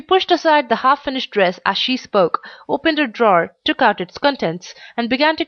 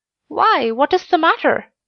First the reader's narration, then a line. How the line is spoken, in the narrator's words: cried kind little Clover